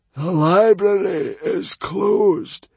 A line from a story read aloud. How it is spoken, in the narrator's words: croaked the Hairy, Scary Librarian